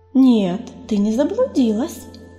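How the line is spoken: Gentle objection. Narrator (Russian): мягко возразила целительница

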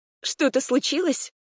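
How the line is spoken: Frightened question. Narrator (Russian): испуганно спросила я

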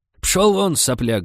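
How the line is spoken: Yelling. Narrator (Russian): заорала Степановна

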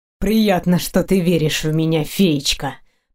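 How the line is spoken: Angry words through teeth. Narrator (Russian): процедил он зло

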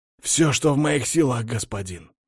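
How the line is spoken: Guard's sincere exclamation. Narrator (Russian): искренне воскликнул гвардеец

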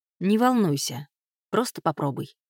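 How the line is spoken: Plain. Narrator (Russian): сказал Том

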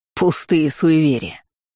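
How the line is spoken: Man spitting angrily. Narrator (Russian): зло выплюнул мужчина

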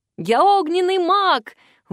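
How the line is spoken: Delighted shout. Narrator (Russian): в восторге закричал Вик

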